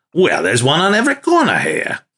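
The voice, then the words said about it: Put-on Australian or Austrian accent. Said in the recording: “That's a hard accent to do ... Were you doing Australian or Austrian?”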